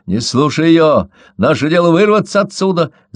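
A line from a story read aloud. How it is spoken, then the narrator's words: Excited shout. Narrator (Russian): закричал возбужденно Мое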